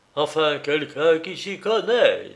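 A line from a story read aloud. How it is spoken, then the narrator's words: Triumphant jubilation. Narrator (French): dit-il avec un accent de jubilation triomphante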